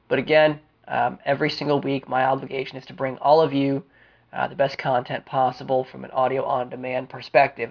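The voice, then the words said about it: Congested voice with a sniffle. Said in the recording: “I've been fighting off a cold this week ... a pretty nasty sore throat ... a little bit of congestion, as you can probably still hear in my voice with that sniffle”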